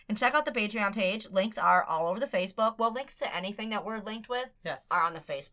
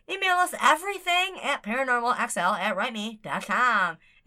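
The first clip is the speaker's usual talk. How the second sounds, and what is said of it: Funny put-on announcer voice. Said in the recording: “I want to use that funny voice.”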